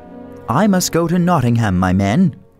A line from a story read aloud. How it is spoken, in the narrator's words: he said